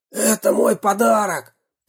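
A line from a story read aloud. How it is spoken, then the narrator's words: Hoarse wheeze. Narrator (Russian): прохрипел он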